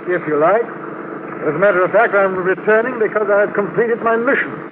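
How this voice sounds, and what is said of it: English accent. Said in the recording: “You talk like an Englishman.”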